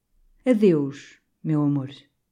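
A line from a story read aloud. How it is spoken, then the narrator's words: Sighing, restrained. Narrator (Portuguese): deu um suspiro e, como dominando-se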